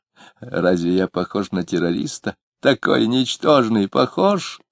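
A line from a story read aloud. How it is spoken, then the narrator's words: Nasty giggling question. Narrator (Russian): спросил он, хихикнув скверненько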